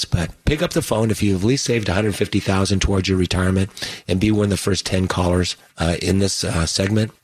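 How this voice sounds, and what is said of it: Hoarse voice. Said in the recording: “I apologize for my hoarse sounding laryngitis”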